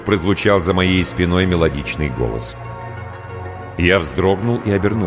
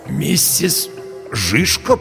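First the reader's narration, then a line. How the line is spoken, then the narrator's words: Hoarse croak. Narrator (Russian): прохрипел я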